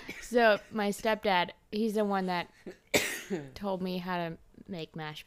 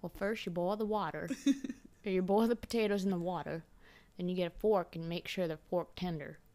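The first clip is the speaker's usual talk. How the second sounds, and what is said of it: Exaggerated Texan accent. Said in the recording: “his like Texan accent ... I'm obviously exaggerating his accent just a wee bit.”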